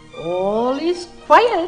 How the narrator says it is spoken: chirped the bird gaily

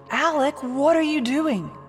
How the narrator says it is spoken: shouted from the shore

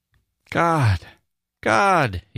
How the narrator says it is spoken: he kept exclaiming

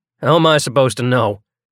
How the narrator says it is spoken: He asked harshly

